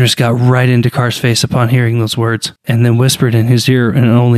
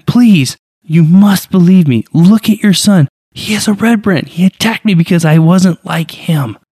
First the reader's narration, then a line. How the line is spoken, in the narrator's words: pleaded Dak